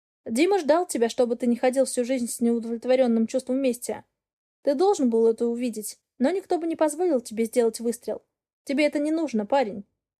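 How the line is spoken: Plain, angel. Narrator (Russian): говорит ангел

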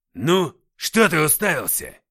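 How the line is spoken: Barked harshly. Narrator (Russian): рявкнул

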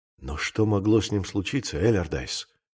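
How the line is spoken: Whispered. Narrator (Russian): прошептал

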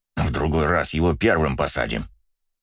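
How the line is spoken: Angry promise. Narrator (Russian): зло пообещал

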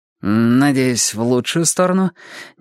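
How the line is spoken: Nervous forced words. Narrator (Russian): нервно выдавил я

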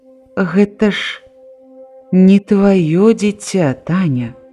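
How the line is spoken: Quiet tender speech. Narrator (Belarusian): ён, пяшчотна крануўшы за плячо, ціха сказаў

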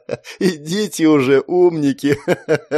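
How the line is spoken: Tearful moan. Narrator (Russian): Простонал он, вытирая выступившие слезы

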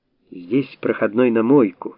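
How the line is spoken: Cheerful. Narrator (Russian): радостно сообщил Стрельцов

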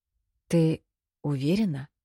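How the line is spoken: Very quiet question. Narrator (Russian): очень тихо спросил Висташи

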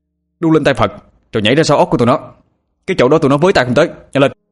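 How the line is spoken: Nearly shouting. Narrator (Vietnamese): Anh nói mà như hét

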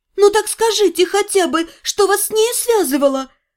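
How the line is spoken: Pleading. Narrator (Russian): взмолилась я

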